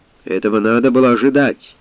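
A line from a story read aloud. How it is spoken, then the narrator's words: Grumbling. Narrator (Russian): заворчал Кантекор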